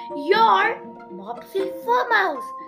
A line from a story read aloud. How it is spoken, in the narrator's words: Mimi cried